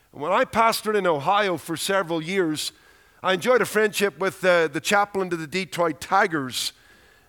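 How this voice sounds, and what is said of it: Irish accent, congested head-cold voice. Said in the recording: “the head cold hasn't made it almost impossible to understand me, because the Irish accent can be difficult enough, but you throw in a head cold”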